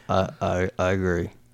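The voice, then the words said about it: Poor imitation of another person's voice. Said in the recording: “impression ... That's a terrible impression”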